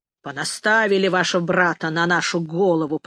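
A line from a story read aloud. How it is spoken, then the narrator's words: Grumbling. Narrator (Russian): проворчал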